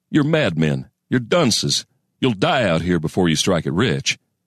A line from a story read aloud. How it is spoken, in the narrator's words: he'd have chuckled bitterly